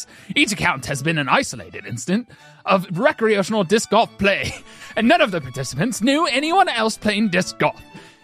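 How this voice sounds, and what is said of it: Put-on accent wandering across regions. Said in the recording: “That accent went on a world tour. ... So much culture in one moment. ... Where was he from? ... Why did you do an accent?”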